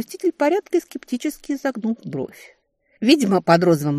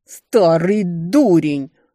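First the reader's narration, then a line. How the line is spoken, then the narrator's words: Barked by stepmother. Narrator (Russian): рявкнула мачеха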